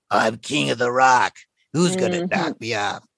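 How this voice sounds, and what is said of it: Raspy, gravelly impression of another voice. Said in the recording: “He has that raspy, gravelly voice. ... That's a pretty good impression.”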